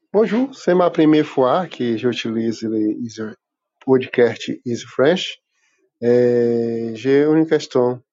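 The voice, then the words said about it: Brazilian accent in French. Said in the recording (French): “est-ce que tu reconnais ce bel accent ... il est peut-être brésilien ... c'est à 100% brésilien”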